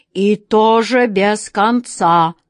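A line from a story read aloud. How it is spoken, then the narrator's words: Imposing lion's growl. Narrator (Russian): внушительно прорычал лев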